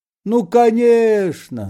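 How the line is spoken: Shouting. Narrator (Russian): закричал Остап

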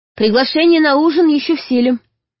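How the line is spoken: Shouted after someone. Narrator (Russian): только и крикнула ему вдогонку

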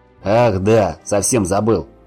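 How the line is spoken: Growled from afar. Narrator (Russian): рыкнул издали Гриша

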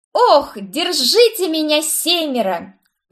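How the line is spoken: Ecstatic squeal. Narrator (Russian): взвизгнула я, изображая танцевальный экстаз

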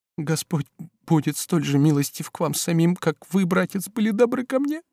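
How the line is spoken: Trembling voice. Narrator (Russian): проговорила дрожащим голосом Бабетта

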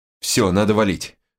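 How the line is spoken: Breathed out. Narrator (Russian): выдохнул я

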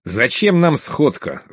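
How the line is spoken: Angry interruption. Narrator (Russian): зло перебил Вельвет

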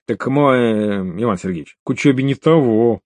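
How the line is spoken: Mumbling king. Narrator (Russian): промямлил король

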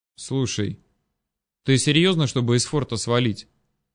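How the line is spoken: Quiet question. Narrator (Russian): Все так же тихо поинтересовался Напалм

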